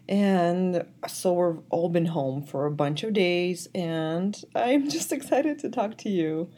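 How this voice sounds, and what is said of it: Slightly off, sick-sounding voice. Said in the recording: “my voice is a little bit off. I am sick a little bit, actually, with COVID.”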